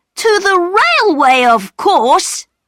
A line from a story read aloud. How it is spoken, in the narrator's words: cried Peter